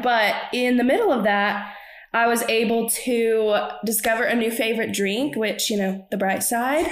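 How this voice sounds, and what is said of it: Congested, stuffy-nosed voice. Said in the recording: “if you can't tell by my voice, I sound a little congested.”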